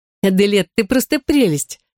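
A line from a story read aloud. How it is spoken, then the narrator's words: Laughing. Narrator (Russian): рассмеялась Мари-Жозеф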